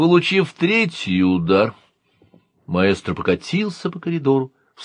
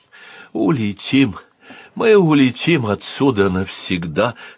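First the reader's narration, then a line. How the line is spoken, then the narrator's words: Whispering to himself. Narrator (Russian): шептал себе маэстро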